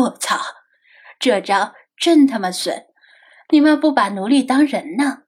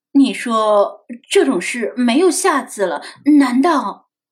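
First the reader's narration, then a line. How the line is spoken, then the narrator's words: Trembling, sudden realization. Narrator (Chinese): 他突然回过味儿来，颤声说道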